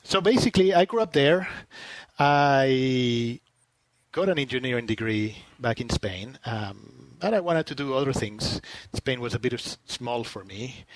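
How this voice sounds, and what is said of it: Spanish accent in English. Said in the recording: “I was born and I grew up in Spain until I was my early 20s... I still haven't gotten rid of my accent, as you can tell.”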